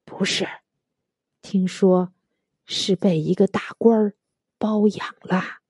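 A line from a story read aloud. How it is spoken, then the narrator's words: Whispering. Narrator (Chinese): 服务员小声说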